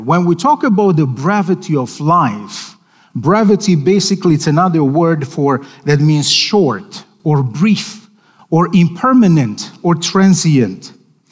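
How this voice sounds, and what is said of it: Non-native English accent. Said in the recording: “by my accent, English is my second language.”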